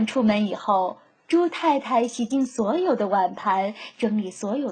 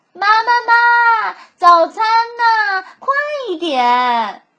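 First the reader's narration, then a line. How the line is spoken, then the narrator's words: Children shouting loudly. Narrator (Chinese): 西蒙和帕克……总是大声喊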